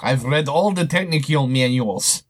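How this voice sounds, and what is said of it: Put-on Russian accent. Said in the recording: “No, that's in a Russian accent.”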